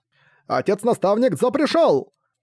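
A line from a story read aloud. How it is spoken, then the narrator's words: Sudden shout. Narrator (Russian): кто-то выкрикнул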